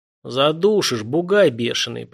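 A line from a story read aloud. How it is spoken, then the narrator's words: Wheezing while being crushed. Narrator (Russian): прохрипел Елисей, чувствуя, как хрустят ребра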